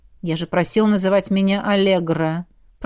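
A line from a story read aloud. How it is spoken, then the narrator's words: Grumbling. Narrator (Russian): проворчал гость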